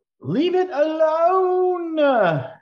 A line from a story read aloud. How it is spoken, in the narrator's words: Dawn, she is going to scream at you